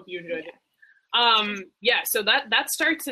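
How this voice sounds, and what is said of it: Usual voice. Nothing is said of it.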